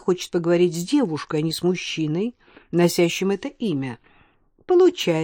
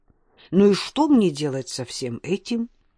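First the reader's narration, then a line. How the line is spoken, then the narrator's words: Indignant, to herself. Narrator (Russian): возмущенно спросила Алена сама себя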